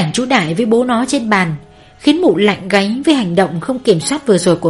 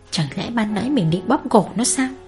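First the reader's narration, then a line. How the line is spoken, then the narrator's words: Muttering. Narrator (Vietnamese): mụ lẩm bẩm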